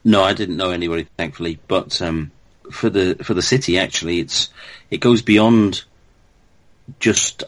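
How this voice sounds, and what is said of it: Liverpool accent. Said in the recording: “people can tell by your accent you're from around that way”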